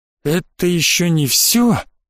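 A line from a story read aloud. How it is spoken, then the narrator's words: Breathed out. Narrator (Russian): выдохнул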